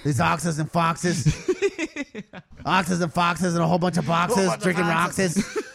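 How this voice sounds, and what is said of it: Dr. Seuss-style rhyming impression. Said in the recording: “He sounded like he went a little Dr. Seuss there ... That is a funny impression”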